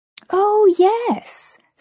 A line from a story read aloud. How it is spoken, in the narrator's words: said the man cheerfully